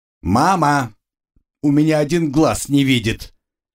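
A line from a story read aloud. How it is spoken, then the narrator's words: Very loud scream. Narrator (Russian): кто-то вновь закричал рядом, да так громко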